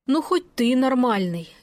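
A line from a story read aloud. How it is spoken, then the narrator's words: Relieved sigh. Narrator (Russian): Я вздохнула с облегчением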